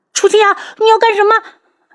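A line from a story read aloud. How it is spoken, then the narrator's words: Terrified scream. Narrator (Chinese): 吓得他失声大叫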